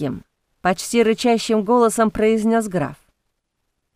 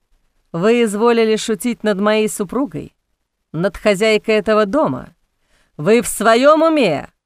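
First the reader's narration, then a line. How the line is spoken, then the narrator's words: Growling. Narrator (Russian): Продолжал рычать граф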